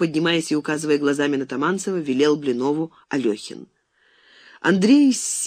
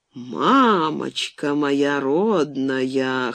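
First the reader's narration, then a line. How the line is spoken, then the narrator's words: Husky sleepy exclamation. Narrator (Russian): хрипловатым с просонок голосом воскликнул он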